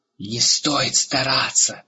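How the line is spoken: Angry hiss. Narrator (Russian): злобно прошипел высокий Разык

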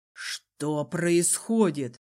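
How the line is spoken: Muttered. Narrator (Russian): пробормотал светлейший

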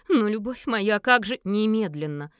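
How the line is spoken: Menacing growl. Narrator (Russian): угрожающе прорычал Гервальд

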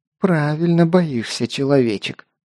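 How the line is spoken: Hissed, vampire woman. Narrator (Russian): прошипела вампирша

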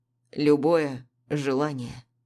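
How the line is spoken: Hoarse clarification. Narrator (Russian): хрипло уточняет он

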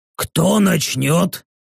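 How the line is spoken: Muffled impatient orc mutter. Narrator (Russian): глухо пробормотал подрагивающий от нетерпения орк

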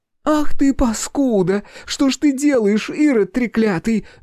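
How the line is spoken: Shrieking. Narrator (Russian): визжала Виктория Павловна

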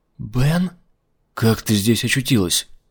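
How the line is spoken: Whisper. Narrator (Russian): прошептала Умабальсум

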